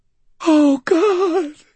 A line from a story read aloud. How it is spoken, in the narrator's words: Rudolph whimpered